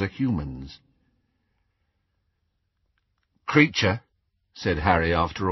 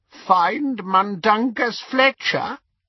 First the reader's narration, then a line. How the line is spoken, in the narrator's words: he croaked